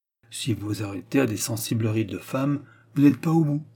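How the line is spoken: Grumbled. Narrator (French): grogna M

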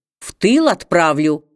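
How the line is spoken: Low threat through teeth. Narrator (Russian): снова в полголоса пригрозил сквозь зубы

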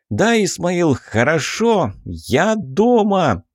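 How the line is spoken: Shout. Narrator (Russian): выкрикнул Михась

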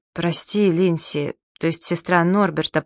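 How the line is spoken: Mumbled. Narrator (Russian): пробормотал Джаспер

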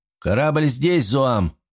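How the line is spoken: Shout. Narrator (Russian): выкрикнул Волков

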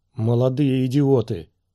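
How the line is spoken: Rough voice. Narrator (Russian): продолжал отец Сиризы грубым голосом

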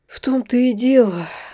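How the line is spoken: Sighing. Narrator (Russian): вздохнул Марк

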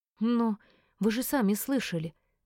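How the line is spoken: Breathless, growing despair. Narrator (Russian): выдохнула с нарастающим отчаянием

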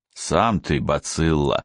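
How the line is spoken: Grumbling. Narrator (Russian): проворчал Славин

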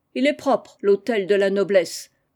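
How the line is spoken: Involuntary shouting. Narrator (French): vociféra le sans-culotte, malgré lui

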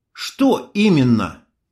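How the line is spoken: Angry. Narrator (Russian): сердито нахмурилась Майя

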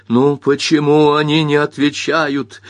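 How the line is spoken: Furious near-shout. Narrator (Russian): в ярости почти крикнул Бобби

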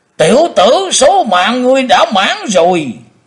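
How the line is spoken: Thunderous roar. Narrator (Vietnamese): Tử Diện Côn Luân gầm lên tạo sấm

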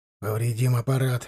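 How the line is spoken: Grumbled. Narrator (Russian): буркнул бортинженер

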